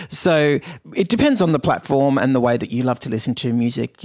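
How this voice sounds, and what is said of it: Australian accent. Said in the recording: “looking for the Aussie accent here.”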